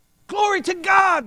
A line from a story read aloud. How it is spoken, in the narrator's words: they shouted